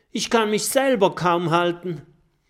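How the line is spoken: Gasping call. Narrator (German): Oskar schnappt nach Luft und ruft

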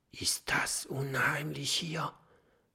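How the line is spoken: Whisper. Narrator (German): flüstert Mathilda

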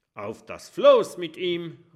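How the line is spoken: Calling out. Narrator (German): ruft Kabeljau Kurt

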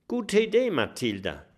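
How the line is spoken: Plain. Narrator (German): sagt Kokosnuss

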